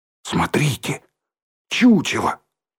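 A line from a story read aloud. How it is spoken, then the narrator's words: Whispered. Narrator (Russian): почему-то шепотом произнес Рыжий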